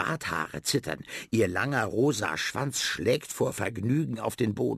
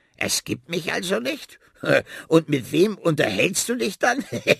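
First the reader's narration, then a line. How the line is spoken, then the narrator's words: Loud laughter. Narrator (German): Sie beginnt schallend zu lachen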